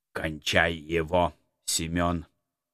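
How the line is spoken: Order through clenched teeth. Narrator (Russian): Сквозь зубы приказал Птицерухов

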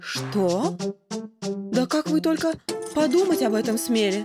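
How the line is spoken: Frightened. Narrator (Russian): Испуганно отшатнулась Ольга Марковна

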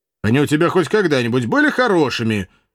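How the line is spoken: Good-natured snap. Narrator (Russian): беззлобно огрызнулся казак

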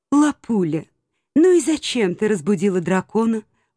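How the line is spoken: Weary elf. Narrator (Russian): устало эльф

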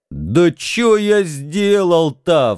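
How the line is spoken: Wailing. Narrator (Russian): взвыл, наконец, Митенька

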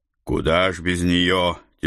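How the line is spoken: Heavy sigh. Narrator (Russian): Тяжело вздохнул я

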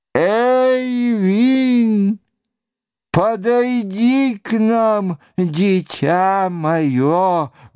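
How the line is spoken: Old man's loud call. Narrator (Russian): громко позвал один из старцев

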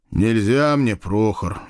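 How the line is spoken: Sigh. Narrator (Russian): вздохнул я

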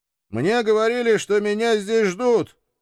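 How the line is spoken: Loud question. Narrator (Russian): громко спросил я темноту

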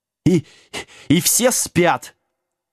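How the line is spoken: Indignant yell, out of breath. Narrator (Russian): возмущенно завопил Вилкинс, едва отдышавшись

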